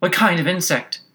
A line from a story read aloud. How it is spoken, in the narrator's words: Alice inquired a little anxiously